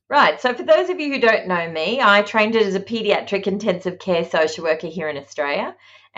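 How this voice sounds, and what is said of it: Australian accent. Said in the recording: “that is the Australian accent of”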